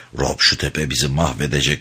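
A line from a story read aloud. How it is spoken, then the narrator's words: Muttered. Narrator (Turkish): diye mırıldandı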